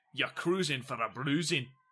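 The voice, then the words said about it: Put-on Scottish accent. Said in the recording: “The accent, it was Scottish”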